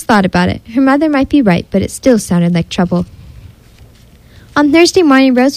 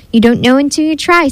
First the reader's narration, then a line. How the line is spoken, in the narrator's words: said her mother